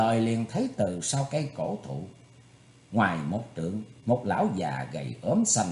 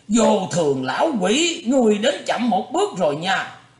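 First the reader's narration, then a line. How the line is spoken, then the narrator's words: Big man shouting. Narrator (Vietnamese): Gã đại hán ... vừa thấy lão già liền la lên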